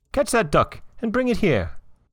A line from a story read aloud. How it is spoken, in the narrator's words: he began to suspect that he had been deceived, and he called out to the servants